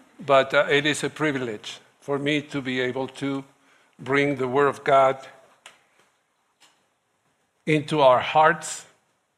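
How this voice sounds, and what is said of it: Noticeable foreign accent. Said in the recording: “I hope my accent won't left you a headache”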